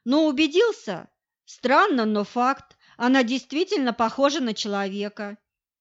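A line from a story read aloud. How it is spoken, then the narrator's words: Confused confirmation. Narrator (Russian): растерянно подтвердил Стешенко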